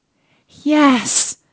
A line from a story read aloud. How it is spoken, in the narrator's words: cried Cinderella with a great sigh